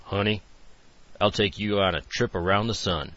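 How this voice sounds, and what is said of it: Deep baritone character voice. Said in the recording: “In a baritone voice, she said”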